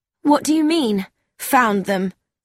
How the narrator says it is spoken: Mildred Street said sharply

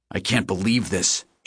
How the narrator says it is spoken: H growled

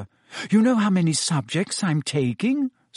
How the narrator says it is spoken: Said Hermione breathlessly

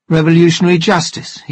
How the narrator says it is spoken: he said

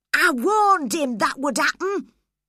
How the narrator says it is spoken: he cried

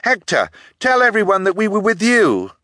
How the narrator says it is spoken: The middle Baudelaire stood up on tiptoe and called out over the crowd

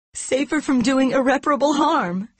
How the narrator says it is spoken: She cried

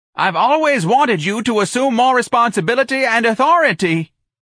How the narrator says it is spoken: the office manager screamed

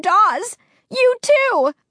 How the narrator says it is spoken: I cried, so disappointed, so confused, so scared

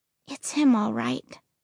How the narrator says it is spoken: I said quietly

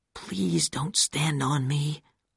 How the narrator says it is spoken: I whispered to him

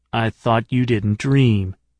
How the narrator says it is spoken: said Katz

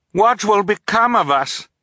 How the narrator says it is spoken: Violet asked, raising her voice to be heard over the rushing water

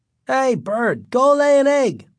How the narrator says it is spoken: yelled

